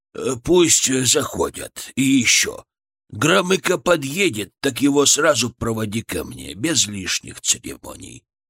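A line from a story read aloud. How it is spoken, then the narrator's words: Muttered with a sigh. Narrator (Russian): пробормотал Леонид Ильич и со вздохом сказал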